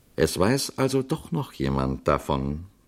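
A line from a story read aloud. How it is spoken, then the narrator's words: Calm priest. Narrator (German): sagte der Priester ruhig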